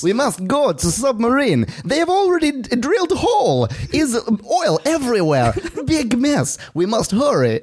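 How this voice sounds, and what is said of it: Put-on Russian accent. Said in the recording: “This is my best Russian accent.”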